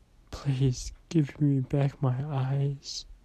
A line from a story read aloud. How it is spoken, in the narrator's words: began to cry and whimper